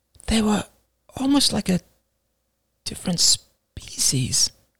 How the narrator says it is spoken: murmured Alice

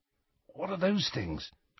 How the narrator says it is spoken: whispered Ron

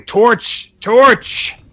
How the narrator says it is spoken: shouting

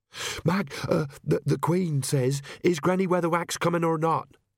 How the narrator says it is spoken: she panted

